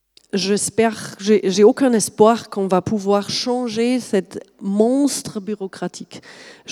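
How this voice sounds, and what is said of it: Slight German accent in French. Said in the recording (French): “je suis allemande de, base, vous avez peut-être noté le petit accent.”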